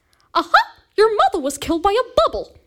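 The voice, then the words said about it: Cartoon mouse character voice. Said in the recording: “The best impression I can do ... No, I'm Mickey.”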